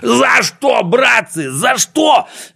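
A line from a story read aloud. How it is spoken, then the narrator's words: Panicked shout. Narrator (Russian): закричал Пончик, чувствуя, что летит в мешок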